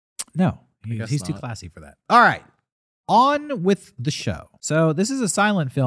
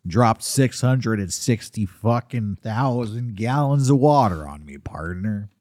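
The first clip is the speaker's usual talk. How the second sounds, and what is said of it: John Wayne impression. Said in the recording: “You like my John? ... Yeah, I like your John Wayne. ... Nobody does an impersonation of John Wayne cursing.”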